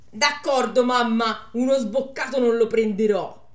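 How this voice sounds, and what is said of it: Put-on Milanese accent. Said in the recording (Italian): “accento milanese”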